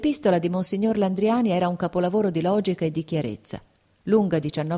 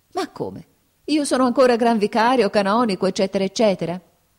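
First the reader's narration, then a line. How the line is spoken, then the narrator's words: Laughing self-question. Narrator (Italian): si domandò Fabrizio ridendo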